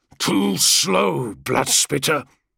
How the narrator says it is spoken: the Blood Angel growls in Nagrakali, the mongrel tongue of the 12th Legion

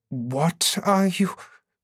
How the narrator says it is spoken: Sev demanded shakily

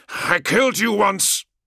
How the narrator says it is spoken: snarled

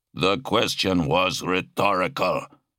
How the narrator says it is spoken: Malek grunted

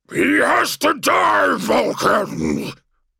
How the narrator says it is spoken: bellowed the creature that had been Magnus the Red

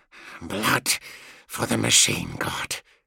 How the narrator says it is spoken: he said through clenched teeth

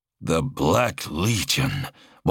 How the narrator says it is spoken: one of the Astartes said in a low, dangerous voice

